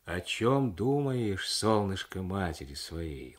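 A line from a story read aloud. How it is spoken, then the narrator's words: Gentle motherly tone. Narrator (Russian): ласково обратилась к нему мать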